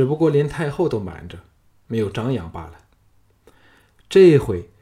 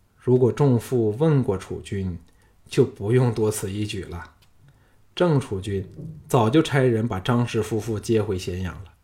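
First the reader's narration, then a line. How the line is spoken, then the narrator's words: Sighing. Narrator (Chinese): 项少龙叹道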